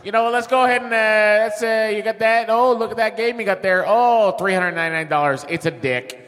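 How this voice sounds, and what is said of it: Put-on Chicago accent. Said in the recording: “I just started talking like I was from Chicago... Now do the Chicago accent.”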